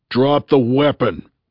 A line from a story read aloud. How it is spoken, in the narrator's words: he bellowed